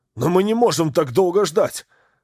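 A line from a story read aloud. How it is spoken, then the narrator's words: Desperate shout. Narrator (Russian): Закричал с мужеством отчаяния доктор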